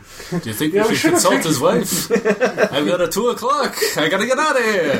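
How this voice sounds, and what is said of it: Stereotypical Jewish accent. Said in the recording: “stereotypical Jewish accent”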